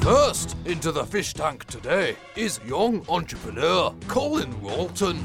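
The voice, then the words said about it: Scottish accent. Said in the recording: “why has this narrator got a Scottish accent?”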